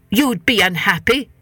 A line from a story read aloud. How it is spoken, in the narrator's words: said the head man crossly